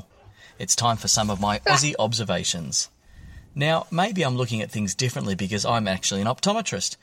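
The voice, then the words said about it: Australian accent. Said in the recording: “Melbourne, Australia ... Australian accent is not fake at all”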